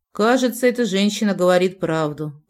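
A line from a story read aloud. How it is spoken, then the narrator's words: Mumbling. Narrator (Russian): промямлил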